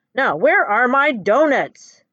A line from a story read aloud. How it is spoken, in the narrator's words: the Emperor asks loudly